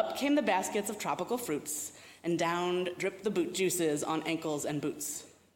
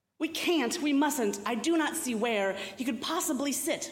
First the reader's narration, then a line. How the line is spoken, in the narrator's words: Musa cried in despair